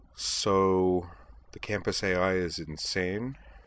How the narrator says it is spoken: said Utina

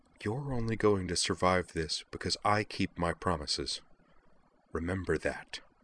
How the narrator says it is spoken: she murmured into his ear

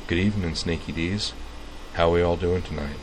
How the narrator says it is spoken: said, in a soft, mellow, friendly voice

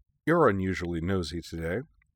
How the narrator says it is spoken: Mio remarked dryly

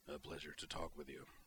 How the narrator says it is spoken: Tavonsik rumbling

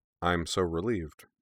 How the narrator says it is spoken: said Griffin dryly

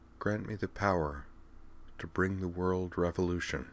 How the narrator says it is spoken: Utna Tenjo's face wore a faraway, pensive look, and her voice was soft and faintly haunted as she murmured

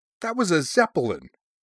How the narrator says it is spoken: he said indignantly

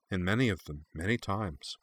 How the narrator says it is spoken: Nana said sadly

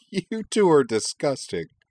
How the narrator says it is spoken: Kate laughed

